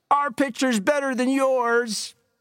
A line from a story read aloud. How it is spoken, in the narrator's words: From the Rattlers' dugout came shouts